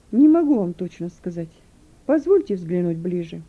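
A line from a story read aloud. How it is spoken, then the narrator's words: Calm reply. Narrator (Russian): Юн уже спокойно ответил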